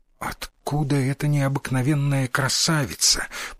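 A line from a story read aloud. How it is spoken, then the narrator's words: Whisper. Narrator (Russian): прошептал сын Микадо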